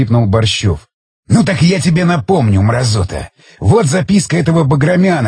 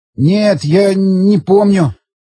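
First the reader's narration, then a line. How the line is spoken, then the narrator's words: Trembling voice. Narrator (Russian): дрожащим голосом проговорил Борщев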